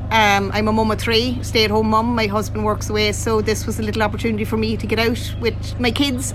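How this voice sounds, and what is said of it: Irish Leitrim accent. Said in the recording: “that's not a Rosnaula accent ... I'm a Leitrim woman, so I am, you know, born, bred in Leitrim”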